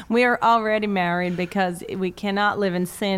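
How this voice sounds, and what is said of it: Put-on American Southern accent. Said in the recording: “See, I can only do a southern accent. ... Okay, we're going southern. ... No, I can only do southern.”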